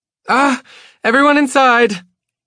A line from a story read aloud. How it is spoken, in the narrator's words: Grace cries